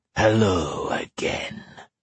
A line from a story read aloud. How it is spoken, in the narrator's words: the monster purred